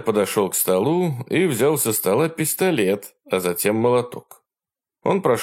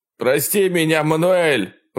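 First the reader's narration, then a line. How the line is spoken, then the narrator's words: Shout. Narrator (Russian): выкрикнул Брэнсон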